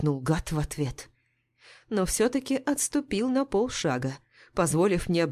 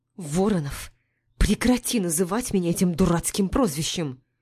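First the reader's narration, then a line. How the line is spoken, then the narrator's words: Through gritted teeth. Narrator (Russian): Процедила я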